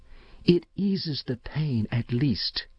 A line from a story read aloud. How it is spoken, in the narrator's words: went on dreamily, her voice thinning into a sob